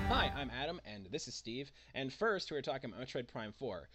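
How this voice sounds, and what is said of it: Sick, low-energy voice. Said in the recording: “I am not feeling well today. And I don't know if you can hear it in my voice ... if I'm not super enthusiastic, it's because I feel like crap”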